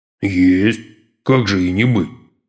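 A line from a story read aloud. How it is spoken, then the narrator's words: Confused deep-voiced merchant. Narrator (Russian): растерянно пробасил купец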